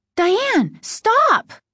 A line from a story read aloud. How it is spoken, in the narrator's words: Margaret cried